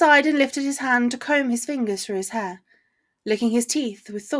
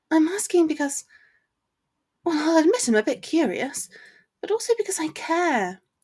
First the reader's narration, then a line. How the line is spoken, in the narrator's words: explained gently